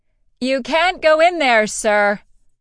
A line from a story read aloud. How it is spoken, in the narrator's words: Her personal assistant and bodyguard, Niobe, was as near to shouting as the freed djinn got